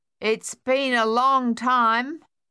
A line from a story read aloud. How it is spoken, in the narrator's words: Sonia said finally, loudly